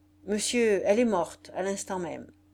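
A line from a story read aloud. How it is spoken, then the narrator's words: Abrupt tone. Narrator (French): Il dit d'un ton brusque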